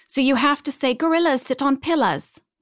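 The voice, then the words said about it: Put-on British accent. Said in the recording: “some of the rhymes only work if you read it in a British accent”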